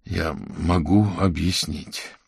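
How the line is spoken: Heavy sigh. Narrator (Russian): тяжело вздохнул Аверин

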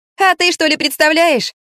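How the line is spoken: Cheerful question. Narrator (Russian): весело спросила она

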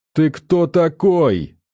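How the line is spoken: Offended roar. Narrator (Russian): взревел Виктор Михалыч, оскорбленный пренебрежением

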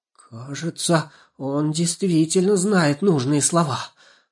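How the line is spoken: Hoarse voice. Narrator (Russian): хрипло проговорила Жирола

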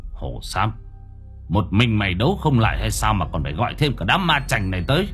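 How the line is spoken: Harsh gritted voice. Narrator (Vietnamese): Gã gằn giọng

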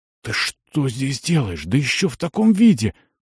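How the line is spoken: Frightened whisper. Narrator (Russian): выдохнул он испуганным шепотом

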